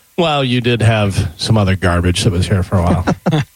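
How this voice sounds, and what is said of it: Good imitation of another person's voice. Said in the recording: “That was a good impression”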